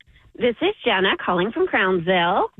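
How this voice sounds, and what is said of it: Very happy, perky voice. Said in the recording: “You sound very happy and perky.”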